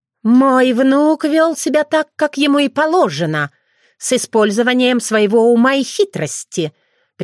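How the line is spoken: Contemptuous, through teeth. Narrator (Russian): презрительно процедила Кицуне

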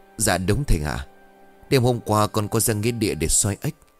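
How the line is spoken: Trembling voice. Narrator (Vietnamese): Thuận ... giọng run rẩy

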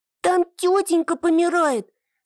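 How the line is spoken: Little girl shouting. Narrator (Russian): закричала вторая девочка, малышка лет 6

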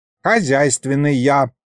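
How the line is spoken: Grumble. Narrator (Russian): пробурчал он

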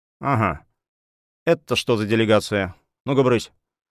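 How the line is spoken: Unpleasant tone, young man. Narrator (Russian): Невысокий рыжеватый дядька, молодой такой, сказал неприятным тоном

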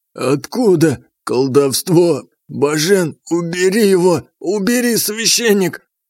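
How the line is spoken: Hoarse wheezing. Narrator (Russian): хрипел

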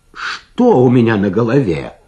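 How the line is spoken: Exclamation. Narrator (Russian): воскликнул он

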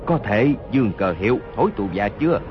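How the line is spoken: Lowered voice, wounded. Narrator (Vietnamese): Hốt Đô Hổ toàn thân giấy máu, hạ giọng nói

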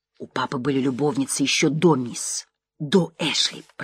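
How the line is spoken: Barely audible whisper. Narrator (Russian): прошептала она едва слышно

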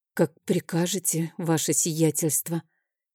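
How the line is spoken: Quiet reply. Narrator (Russian): тихо ответила она

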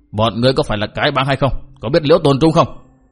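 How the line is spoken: Demanding shout. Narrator (Vietnamese): Bao Đà Thắng cất tiếng quát hỏi

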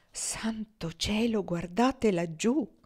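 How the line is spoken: Murmuring. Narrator (Italian): Foxy mormorava

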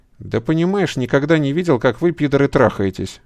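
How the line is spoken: Cheerful male voice. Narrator (Russian): весело сказал незнакомец

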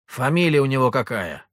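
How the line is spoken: Angry question. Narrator (Russian): сердито спросил денщик

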